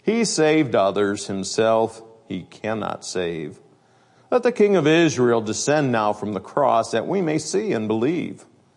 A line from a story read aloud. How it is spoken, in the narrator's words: chief priests mocking said among themselves